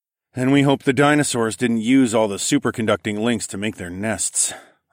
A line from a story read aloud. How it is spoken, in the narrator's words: I sighed